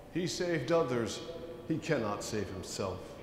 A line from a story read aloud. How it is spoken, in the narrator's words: mocking Jesus among themselves and saying